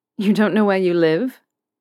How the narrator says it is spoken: Draco scoffed

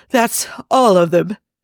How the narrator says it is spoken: says between gasps

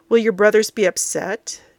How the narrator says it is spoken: Jafar murmurs

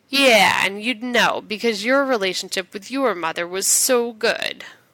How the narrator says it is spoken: His voice thick with sarcasm, John says

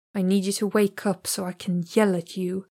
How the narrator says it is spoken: murmured, letting out a gutsy sigh

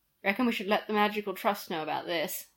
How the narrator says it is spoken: Sirius mumbled, pain rippling across his shoulders

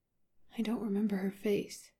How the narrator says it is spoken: he says quietly

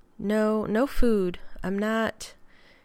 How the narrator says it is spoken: he said

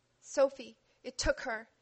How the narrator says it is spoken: she said, dry hiccups and sobs drowned by a collective gasp

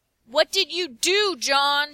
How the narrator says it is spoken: Sherlock yells

